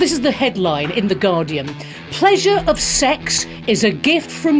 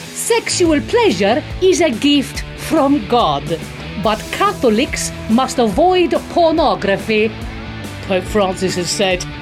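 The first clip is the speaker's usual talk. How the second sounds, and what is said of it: Put-on Italian accent. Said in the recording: “I'm gonna read it in an Italian accent just to be even more offensive.”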